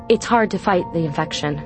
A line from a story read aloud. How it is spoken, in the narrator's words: Tana said, her voice coming out harsher and more despairing than she'd intended